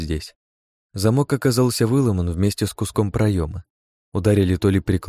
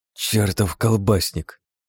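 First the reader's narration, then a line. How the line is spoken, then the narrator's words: Grumble. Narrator (Russian): проворчал Жан-Поль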